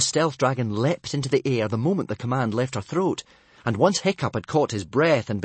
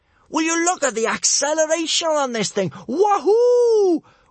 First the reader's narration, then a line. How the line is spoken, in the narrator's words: whooped Kamikaze above the roaring of the wind